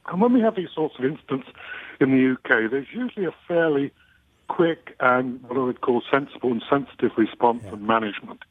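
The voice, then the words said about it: English accent. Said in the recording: “I'm English, as you may figure out from my accent.”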